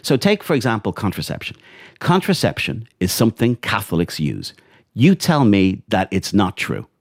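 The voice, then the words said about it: Irish accent. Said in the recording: “we can hear from your accent that you're from Ireland”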